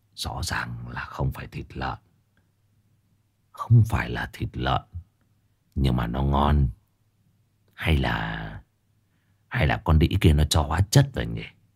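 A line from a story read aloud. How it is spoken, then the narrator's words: Old man muttering. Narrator (Vietnamese): lão lẩm bẩm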